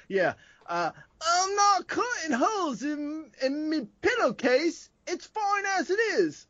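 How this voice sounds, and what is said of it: Put-on Scottish accent. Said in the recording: “I'm doing a Scottish accent right now because the man is Scottish ... I feel like I'm watching Shrek.”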